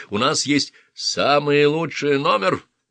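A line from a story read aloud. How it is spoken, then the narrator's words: Bark. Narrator (Russian): рявкнул Мейсон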